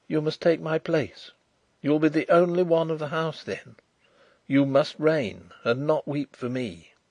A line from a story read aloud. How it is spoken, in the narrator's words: I whispered